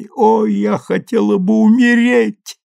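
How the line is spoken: Sobbing. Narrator (Russian): зарыдала она

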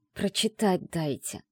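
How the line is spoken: Hissed. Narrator (Russian): прошипела я

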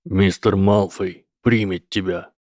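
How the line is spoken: Menacing. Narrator (Russian): угрожающим тоном сказал вернувшийся Гойл

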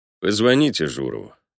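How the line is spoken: Muffled remark after pause. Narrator (Russian): глухо обронил Палёнов после мучительной для него паузы

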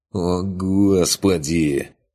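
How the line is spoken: Groan. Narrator (Russian): простонал Курт

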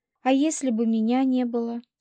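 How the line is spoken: Plain. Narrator (Russian): спросила у волка

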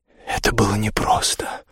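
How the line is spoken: Whispered. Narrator (Russian): прошептала Биргит

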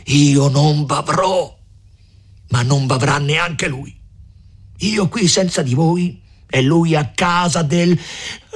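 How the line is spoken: Distraught shout. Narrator (Italian): gridò Renzo con un viso più che mai stravolto

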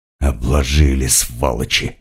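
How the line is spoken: Hiss. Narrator (Russian): прошипела шаманка

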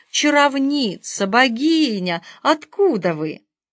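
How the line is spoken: Delighted exclamation. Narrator (Russian): господина Долгова восторженно воскликнул

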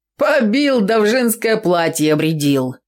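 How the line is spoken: Loud guffawing. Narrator (Russian): загоготал Фимка

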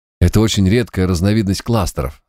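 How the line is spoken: Plain. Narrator (Russian): сказал клоун

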